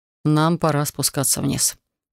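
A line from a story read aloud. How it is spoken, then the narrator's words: Sighing. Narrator (Russian): вздохнул он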